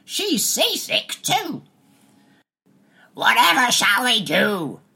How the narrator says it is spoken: screeched Daddy

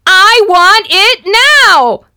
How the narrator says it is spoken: scream

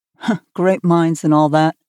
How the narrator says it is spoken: Terry said with a laugh

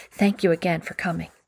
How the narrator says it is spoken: With a whisper, added

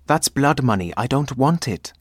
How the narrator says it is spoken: exclaimed Ace

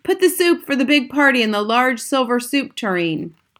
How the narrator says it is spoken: A man with a white, tall hat, who must have been the head chef, shouted

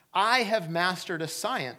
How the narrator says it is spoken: said the first

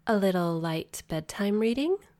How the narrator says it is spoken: She purred, her voice music to my ears

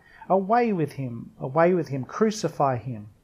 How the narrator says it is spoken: They cried out

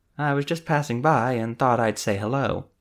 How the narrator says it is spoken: Isabel said in a breezy tone

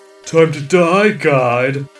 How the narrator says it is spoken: he said with a chuckle

